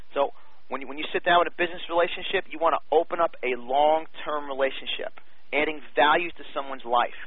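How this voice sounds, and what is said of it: New York accent, fast speech. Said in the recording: “as you can hear, I have a New York accent. I speak fast”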